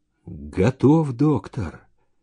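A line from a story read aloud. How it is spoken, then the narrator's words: Quiet voice nearby. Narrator (Russian): тихо сказал кто-то вблизи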